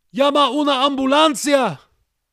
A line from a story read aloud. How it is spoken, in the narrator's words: One of them cried